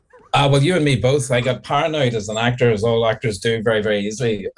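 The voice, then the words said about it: Irish accent. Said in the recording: “That lovely accent comes down my ears. I love it, all the Irish accent.”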